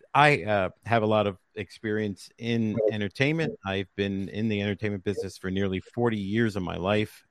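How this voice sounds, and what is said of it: New Jersey accent. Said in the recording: “based out of the Great Garden State in New Jersey. That's how you can tell by my voice where I'm from.”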